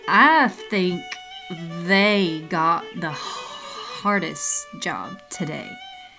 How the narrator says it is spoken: he slurred

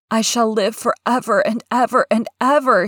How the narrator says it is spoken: he cried grandly

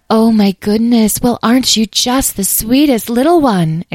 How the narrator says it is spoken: exclaimed

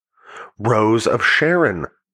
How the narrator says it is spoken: the woman roared

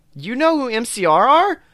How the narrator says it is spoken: I gasped

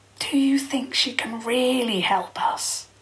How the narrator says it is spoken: He whispered

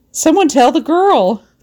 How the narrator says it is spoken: shouted

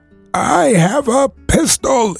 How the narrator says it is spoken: it cried

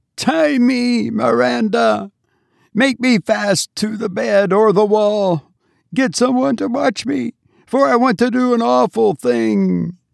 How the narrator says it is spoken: Grandma Hanscom sobbed

